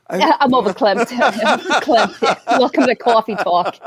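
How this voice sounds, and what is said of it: Put-on Massachusetts accent. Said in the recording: “say it in that Massachusetts accent”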